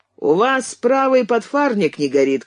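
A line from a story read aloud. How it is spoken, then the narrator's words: Shouted. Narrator (Russian): крикнул Кэнси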